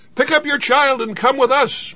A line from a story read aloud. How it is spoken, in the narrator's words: shouted, wide-eyed